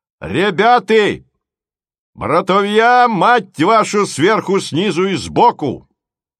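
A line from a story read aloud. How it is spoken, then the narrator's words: Low, heavy, thunderous voice. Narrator (Russian): Сказал он это не очень громко, но низко, тяжело, и голос его, словно бы гром, сотрясая воздушные пласты, покатился над головами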